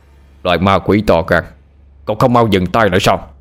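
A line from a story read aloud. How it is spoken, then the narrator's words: Loud shout. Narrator (Vietnamese): một tiếng hét lớn vang lên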